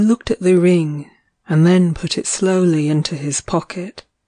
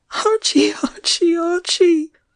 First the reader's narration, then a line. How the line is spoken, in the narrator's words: she sobbed